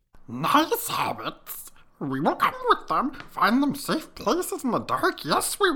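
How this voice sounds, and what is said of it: Gollum character voice impression. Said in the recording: “his Gollum impression ... Oh my God, it's so good.”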